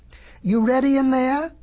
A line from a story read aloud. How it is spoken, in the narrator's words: cried the wolf